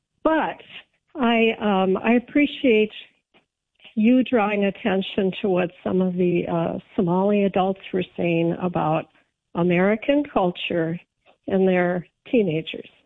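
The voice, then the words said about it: Rough, strained voice. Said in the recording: “I'll apologize for my voice. I've got a bit of a cough and allergies going on.”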